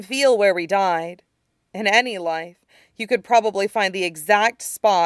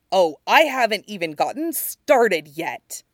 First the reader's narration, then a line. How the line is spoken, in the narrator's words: Zuko snarled